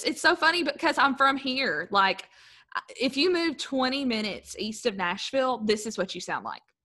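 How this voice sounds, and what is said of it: Southern US accent. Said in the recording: “love your accent. You got a good, southern, right? A southern ... that good southern draw”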